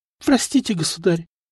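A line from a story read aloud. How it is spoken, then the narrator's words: Tearful girl whispering. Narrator (Russian): прошептала девчонка, глаза которой стали наполняться влагой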